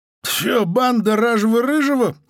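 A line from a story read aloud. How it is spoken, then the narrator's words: Laughing chuckle. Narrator (Russian): хохотнула Звистопула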